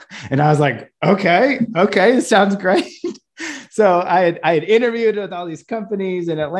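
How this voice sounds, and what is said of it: Usual voice. Nothing is said of it.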